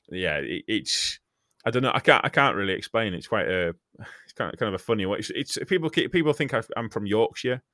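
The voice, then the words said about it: Westmorland Lake District accent. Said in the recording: “I've got a Westmorland accent because I'm from what's called the Lake District ... it's slightly Yorkshire in your accent”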